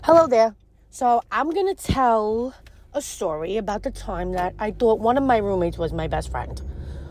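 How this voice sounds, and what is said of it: Thick New York accent. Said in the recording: “she's got a very thick, I can't tell if it's Bronx or Brooklyn accent. Just know she's got a thick New Yorker accent.”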